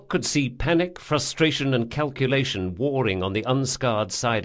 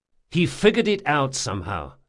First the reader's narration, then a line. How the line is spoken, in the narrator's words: said Locke